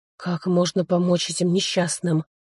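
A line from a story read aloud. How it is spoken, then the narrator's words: Hoarse rasp while spitting. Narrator (Russian): Сплевывая, прохрипел я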